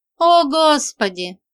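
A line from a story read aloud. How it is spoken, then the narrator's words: Moaning. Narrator (Russian): простонала я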